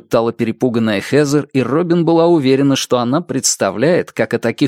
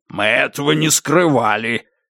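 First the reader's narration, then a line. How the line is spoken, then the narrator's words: Angry reply. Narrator (Russian): сердито отозвался Лэдвелл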